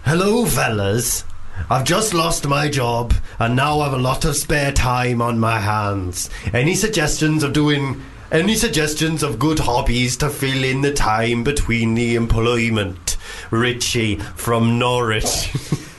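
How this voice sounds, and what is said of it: Put-on Welsh accent, poorly done. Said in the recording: “I've heard your Welsh accent. ... I'm genuinely dreadful. I'm bad at Welsh.”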